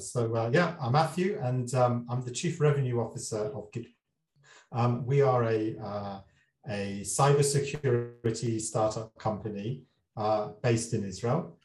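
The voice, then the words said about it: British accent. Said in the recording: “a guy with a British accent”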